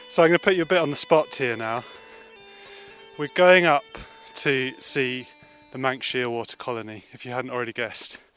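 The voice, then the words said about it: Out of breath while climbing. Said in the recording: “A bit out of breath now.”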